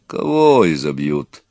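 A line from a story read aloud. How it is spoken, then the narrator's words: Calm deep bass. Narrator (Russian): спокойно басил Петро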